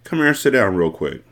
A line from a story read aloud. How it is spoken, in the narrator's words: In a calmer and comforting tone, I said